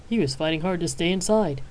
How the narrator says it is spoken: chuckled the doctor

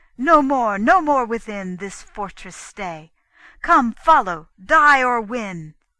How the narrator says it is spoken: he cried

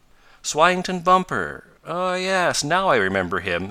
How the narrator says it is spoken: said Ned Newton

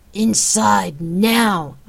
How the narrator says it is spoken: commanded, and grunted

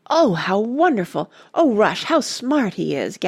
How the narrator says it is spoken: gasped Randy

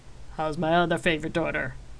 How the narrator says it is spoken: He asked with a chuckle

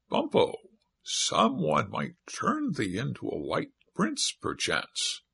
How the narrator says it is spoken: the parrot, talking in a small, high voice, like a little girl, said aloud

